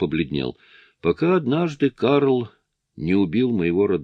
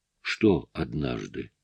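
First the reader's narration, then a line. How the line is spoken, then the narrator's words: Quiet question. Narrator (Russian): тихо спросил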